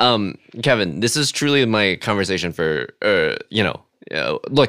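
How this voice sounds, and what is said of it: Usual voice. Nothing is said of it.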